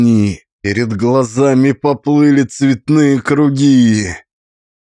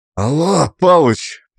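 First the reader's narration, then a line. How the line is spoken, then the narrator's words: Hoarse rasp. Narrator (Russian): прохрипел я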